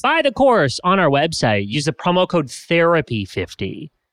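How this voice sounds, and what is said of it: Exaggerated announcer voice. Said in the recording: “in my announcer voice”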